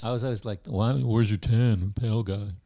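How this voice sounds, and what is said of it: Generic dumb voice. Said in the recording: “doing the generic dumb voice”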